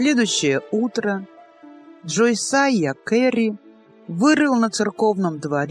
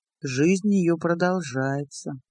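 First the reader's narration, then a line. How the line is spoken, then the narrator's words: Old man speaking quietly. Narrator (Russian): тихо проговорил старик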